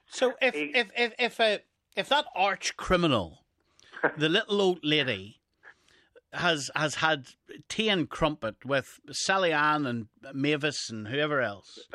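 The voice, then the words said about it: Mellifluous Northern Irish accent. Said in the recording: “particularly in a mellifluent Northern Irish accent”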